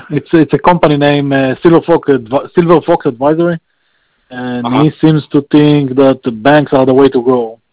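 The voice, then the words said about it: Non-native accent. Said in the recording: “excuse my language is a little bit my accent is a little bit bad today.”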